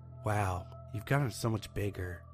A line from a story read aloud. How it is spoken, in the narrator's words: whispers